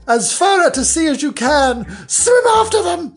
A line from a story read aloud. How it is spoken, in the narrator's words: screamed the Gryphon